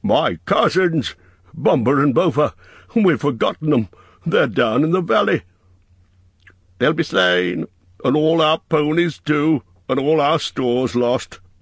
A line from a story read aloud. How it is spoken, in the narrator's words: moaned the others